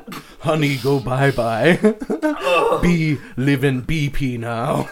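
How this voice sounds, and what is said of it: Stereotyped mock Native American accent. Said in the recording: “1960s-esque racist Native American accent”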